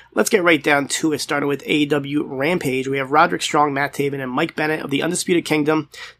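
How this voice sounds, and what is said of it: Sick, under-the-weather voice. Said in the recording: “as you might be able to tell from my voice. I am a little bit under the weather”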